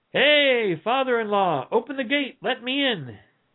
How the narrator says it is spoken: called out

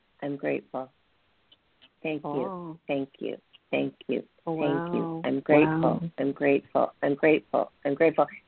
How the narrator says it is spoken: she was saying under her breath

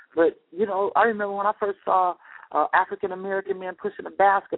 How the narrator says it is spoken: I cried

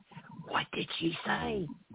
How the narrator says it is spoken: JB's wife just whispered to him

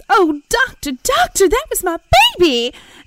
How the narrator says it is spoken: the mother screams

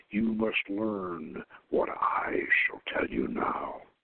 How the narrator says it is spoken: said this man in a sepulchral tone

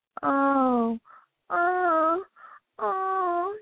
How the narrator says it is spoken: cried as he slipped

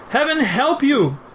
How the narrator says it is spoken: cried one who passed by

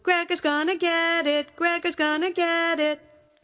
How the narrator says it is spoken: Gregor's sister just kept yelling

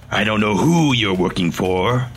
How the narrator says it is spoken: Laszlo said in a dark tone

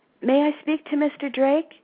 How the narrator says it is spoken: asked nervously into the phone

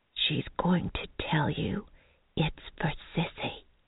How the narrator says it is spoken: Mary whispered

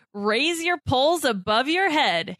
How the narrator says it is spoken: he yells

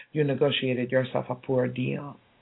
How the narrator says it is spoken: he ... quite calmly with a very smug smile ... said

